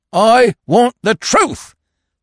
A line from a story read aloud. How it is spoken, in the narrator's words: thundered Falmouth